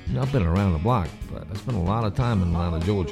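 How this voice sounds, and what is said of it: Southern American accent. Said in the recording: “You can tell by my southern accent.”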